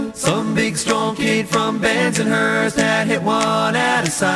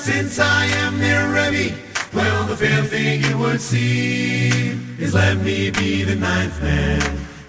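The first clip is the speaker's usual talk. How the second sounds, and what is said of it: Deep voice. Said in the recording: “A deep voice said”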